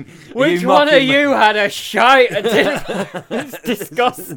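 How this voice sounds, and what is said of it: Mock northern English accent. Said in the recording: “Are you mocking my northern accent there?”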